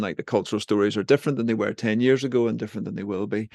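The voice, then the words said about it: Northern Irish accent. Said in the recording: “I'm speaking to you from Northern Ireland ... I speak with a funny accent”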